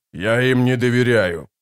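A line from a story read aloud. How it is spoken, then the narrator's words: Growling. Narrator (Russian): прорычал барон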